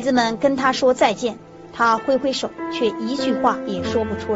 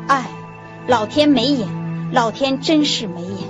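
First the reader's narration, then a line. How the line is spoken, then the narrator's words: Muttering to himself. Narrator (Chinese): 他喃喃自语的念念有词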